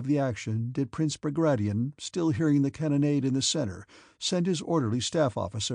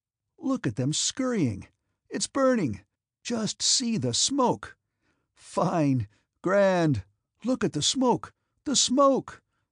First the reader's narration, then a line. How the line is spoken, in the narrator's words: exclaimed the artilleryman, brightening up